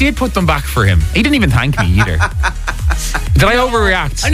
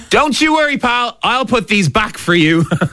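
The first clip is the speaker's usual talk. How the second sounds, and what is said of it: Passive-aggressive, sarcastic tone. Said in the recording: “Give me the tone of voice. ... It's the passive aggressiveness of it.”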